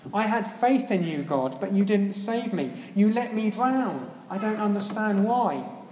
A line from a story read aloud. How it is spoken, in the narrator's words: he exclaimed